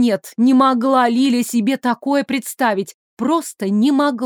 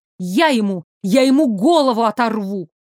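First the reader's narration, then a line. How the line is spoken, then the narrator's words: Angry hiss. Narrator (Russian): Зло прошипела Лиля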